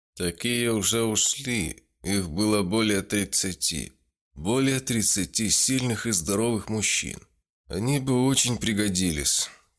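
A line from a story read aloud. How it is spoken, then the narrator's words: Sad. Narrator (Russian): печально сказал Альберт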